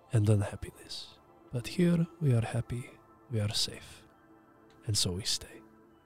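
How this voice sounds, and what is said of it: Rough put-on Russian accent. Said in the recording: “And Russian, apparently... somewhat Russian... Russian sort of situation, Eastern European”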